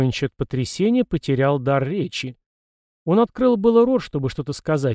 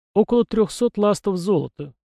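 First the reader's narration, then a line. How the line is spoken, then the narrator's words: Answered affectionately. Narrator (Russian): ответила она, ласково глядя на Воронича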